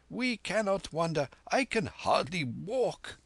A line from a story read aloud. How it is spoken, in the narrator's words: groaned Kim's victim